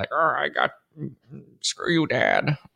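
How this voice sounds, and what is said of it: Imitates another person's voice. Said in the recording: “my impression of a George Lucas”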